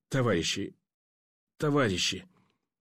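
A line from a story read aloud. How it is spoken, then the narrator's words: Choked hoarse rasp. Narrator (Russian): Удушливо хрипло и жутко выдавил горлом пленный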